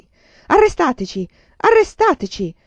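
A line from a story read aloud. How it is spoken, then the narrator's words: Shouting. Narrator (Italian): gridò Giada Lucente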